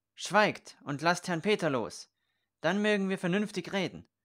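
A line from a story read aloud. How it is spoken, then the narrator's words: Knight calling out. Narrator (German): rief der Ritter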